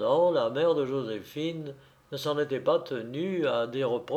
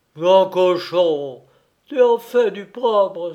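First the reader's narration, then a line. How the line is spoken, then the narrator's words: Exclaiming. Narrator (French): s'exclama-t-elle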